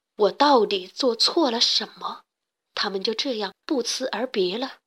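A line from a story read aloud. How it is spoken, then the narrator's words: Sad muttering to self. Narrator (Chinese): 圈洞国王伤心地喃喃自语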